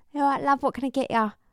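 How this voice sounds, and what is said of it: Put-on Cockney accent. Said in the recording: “Cockney ... the Cockney accent”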